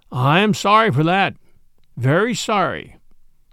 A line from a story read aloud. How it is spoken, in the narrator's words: said John